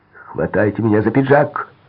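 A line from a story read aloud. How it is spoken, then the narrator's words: Shout. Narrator (Russian): крикнул он Лорелли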